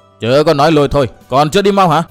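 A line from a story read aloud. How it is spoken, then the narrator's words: Shouting. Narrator (Vietnamese): Chu Bàn Tử quát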